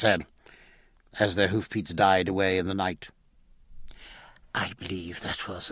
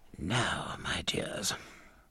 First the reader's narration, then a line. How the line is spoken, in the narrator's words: whispered Mrs